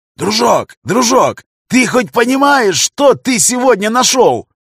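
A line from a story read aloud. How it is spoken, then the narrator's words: Yelling very loudly. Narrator (Russian): Орал он на всю подлодку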